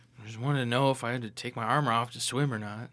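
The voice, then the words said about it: Mumbling under breath. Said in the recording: “I'm mumbling.”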